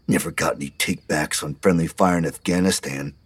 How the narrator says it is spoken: Earl muttered

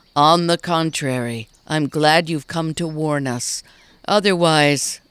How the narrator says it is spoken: the mayor heaved a sigh

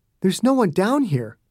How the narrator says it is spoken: Mommy said

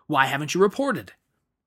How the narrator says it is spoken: shouted with a belligerent

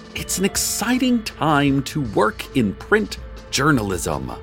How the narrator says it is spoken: Hart shouted after a news blogger who was sprinting away

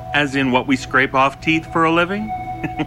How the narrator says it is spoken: He chuckled harder

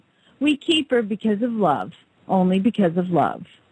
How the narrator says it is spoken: He replied softly

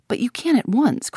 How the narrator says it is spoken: cried Tuppence

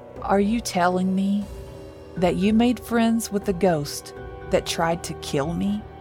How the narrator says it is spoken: Mateo asked

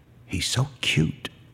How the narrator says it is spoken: whispers

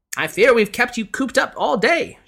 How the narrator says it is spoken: she exclaimed

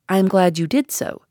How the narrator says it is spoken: said I

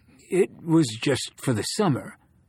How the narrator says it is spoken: said the old man weakly

